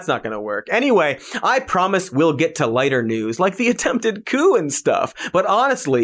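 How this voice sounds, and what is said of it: Usual voice. Nothing is said of it.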